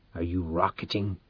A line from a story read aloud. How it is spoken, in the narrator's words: he said hoarsely